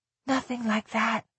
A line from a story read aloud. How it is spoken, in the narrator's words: she whispered